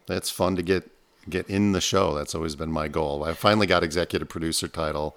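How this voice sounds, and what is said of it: Rich, smooth radio voice. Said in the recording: “you have that beautiful radio voice”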